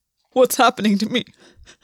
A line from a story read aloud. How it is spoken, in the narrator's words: he said, pressing his palm to his mouth when he felt sobs threatening in his lungs again